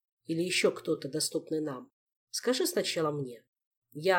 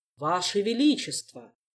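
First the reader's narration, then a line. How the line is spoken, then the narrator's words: Booming from overhead. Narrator (Russian): прогремело из-под потолка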